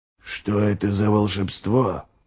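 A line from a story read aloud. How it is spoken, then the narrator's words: Whispered. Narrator (Russian): прошептал Ральф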